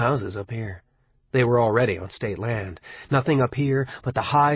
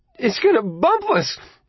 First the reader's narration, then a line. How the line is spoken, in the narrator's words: Bobby screeched from the back seat